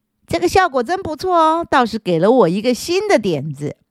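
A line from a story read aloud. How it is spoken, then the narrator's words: Beaming. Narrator (Chinese): 他满面笑容，嘴里说着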